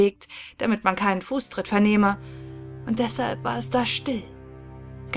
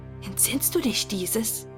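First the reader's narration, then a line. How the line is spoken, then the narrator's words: Whispers one after another. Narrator (German): flüsterte einer nach dem anderen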